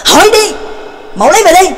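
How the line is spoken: Angry snapping. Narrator (Vietnamese): Trắc Mộc Cường Ba tức giận gắt lên

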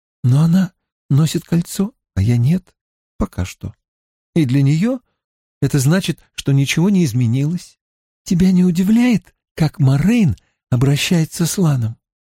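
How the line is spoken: Sweet little voice. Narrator (Russian): спросила Эгвин сладким голоском

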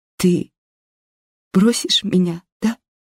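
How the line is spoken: Sobbing. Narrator (Russian): всхлипывает Нина

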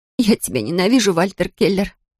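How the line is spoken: Sobbing. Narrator (Russian): всхлипываю

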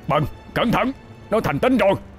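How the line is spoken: Hoarse yell. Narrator (Vietnamese): Ông miệng gào lên khàn đặc

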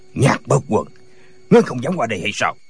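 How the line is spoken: Challenging shout. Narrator (Vietnamese): Tả Lãnh Thiền quát lên

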